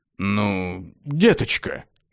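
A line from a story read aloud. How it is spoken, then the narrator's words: Guilty muttering. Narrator (Russian): виновато забормотал король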